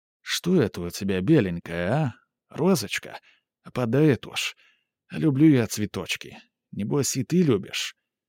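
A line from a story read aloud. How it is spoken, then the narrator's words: Very quiet. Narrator (Russian): Он сказал так тихо, при общем говоре слышала его только Литта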